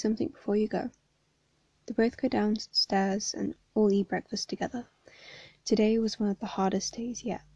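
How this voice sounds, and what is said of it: Hoarse, unwell-sounding voice. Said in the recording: “my voice is really messed up. Like I said, I'm not very well. I've had hay fever freaking kicking me down for like ages now, so my voice is really messed up”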